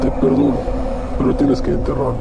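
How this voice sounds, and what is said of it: Ghostly voice from beyond the grave. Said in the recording (Spanish): “le contesta una voz de ultratumba”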